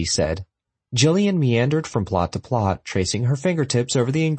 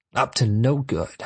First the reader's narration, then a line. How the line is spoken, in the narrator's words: she grumbled from between yellowed teeth